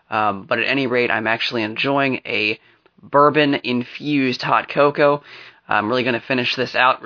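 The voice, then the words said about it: Slightly hoarse voice. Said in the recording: “my voice sounds a little bit hoarse. ... I'm not sure if I'm coming down with something”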